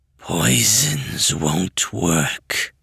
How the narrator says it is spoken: rasped

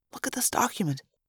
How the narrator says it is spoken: Marco whispered

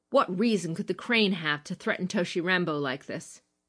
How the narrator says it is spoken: asked sharply, not disguising the implicit accusation

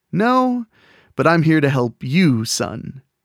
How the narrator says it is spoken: the man replied in his suave voice

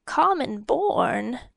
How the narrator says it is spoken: the king rasped

